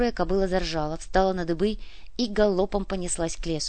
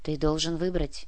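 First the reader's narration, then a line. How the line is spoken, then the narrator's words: Quiet. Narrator (Russian): тихо сказал монах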